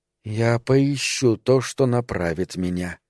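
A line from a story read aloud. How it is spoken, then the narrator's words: Whisper. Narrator (Russian): прошептала она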